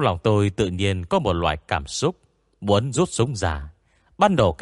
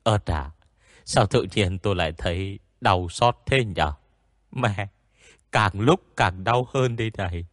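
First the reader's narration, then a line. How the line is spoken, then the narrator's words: Groaning in pain. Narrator (Vietnamese): tôi rên lên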